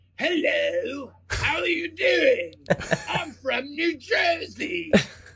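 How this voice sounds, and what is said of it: Bad fake British accent. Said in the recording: “the bad British accent ... It was just really bad.”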